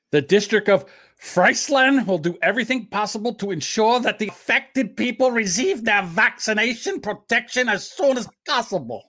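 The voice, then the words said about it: Put-on German accent. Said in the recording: “now that's one accent you don't do do too bad at there”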